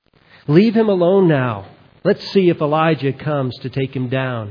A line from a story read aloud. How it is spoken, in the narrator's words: he said